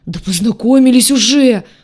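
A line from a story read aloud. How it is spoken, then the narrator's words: Howling. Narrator (Russian): взвыл рогатый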